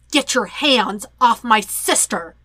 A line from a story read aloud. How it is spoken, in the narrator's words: Sokka growls at Zuko